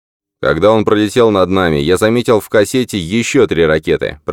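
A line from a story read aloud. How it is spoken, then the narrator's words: Shouted reply. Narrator (Russian): прокричал Джордан в ответ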